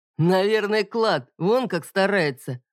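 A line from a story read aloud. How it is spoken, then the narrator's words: Booming laugh. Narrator (Russian): раскатисто хохотнул Лещ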